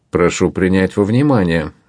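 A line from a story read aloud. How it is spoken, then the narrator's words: Calm. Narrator (Russian): спокойно заметил медвежонок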